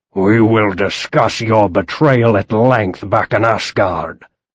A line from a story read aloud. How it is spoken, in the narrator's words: he growled